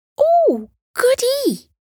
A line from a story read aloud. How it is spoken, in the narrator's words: Missy cried